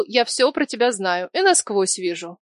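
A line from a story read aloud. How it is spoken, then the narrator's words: Ironic offensive snort. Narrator (Russian): Дамир иронично приподнял бровь и обидно хмыкнул, мол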